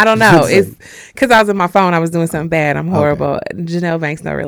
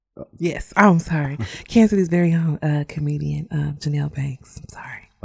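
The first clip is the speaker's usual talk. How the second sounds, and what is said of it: Whispering. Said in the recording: “Why you start whispering?”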